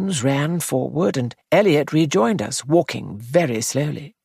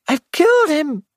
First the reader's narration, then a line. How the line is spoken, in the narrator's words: cried